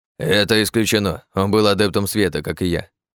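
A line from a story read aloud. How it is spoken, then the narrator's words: Grumbling bird. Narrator (Russian): проворчал птиц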